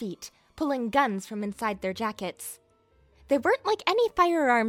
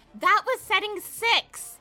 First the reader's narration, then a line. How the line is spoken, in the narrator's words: Archie yelled